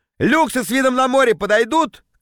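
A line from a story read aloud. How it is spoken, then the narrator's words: Shouted. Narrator (Russian): крикнул я парням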